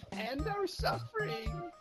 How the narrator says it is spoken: pleaded the midget

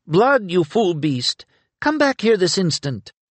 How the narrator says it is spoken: From outside the temple, a woman's voice cried

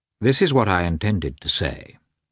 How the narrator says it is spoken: he continued, coldly and calmly

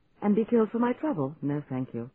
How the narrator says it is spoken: I told her sharply

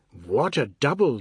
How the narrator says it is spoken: the boys exclaimed

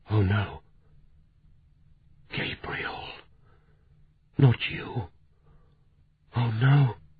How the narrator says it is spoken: She whispered

